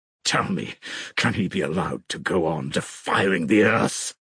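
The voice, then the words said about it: Hollow, growling voice. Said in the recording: “growled in a hollow voice”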